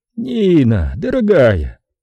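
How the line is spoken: Joyful, smiling. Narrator (Russian): радостно улыбнулся Стентон

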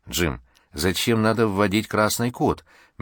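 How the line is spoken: Gentle question. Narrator (Russian): мягко спросила Лиза

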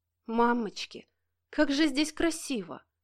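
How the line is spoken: Delighted murmur. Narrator (Russian): Не удержалась и восторженно пробормотала Кира

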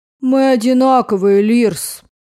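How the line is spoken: Tired. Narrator (Russian): устало проговорил Дейн

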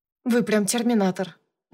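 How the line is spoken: Grumbled. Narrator (Russian): буркнула я

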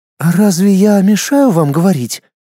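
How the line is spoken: Cold, through clenched teeth. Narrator (Russian): Не меняя своего холодного тона, процедила принцесса

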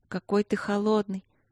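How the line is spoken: Sleepy mumble. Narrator (Russian): сонно пробормотала Василина

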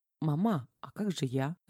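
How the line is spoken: Timid near-whisper. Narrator (Russian): робко почти прошептала Лена

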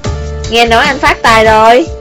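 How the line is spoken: Laughing heartily. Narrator (Vietnamese): A Báo cười lớn

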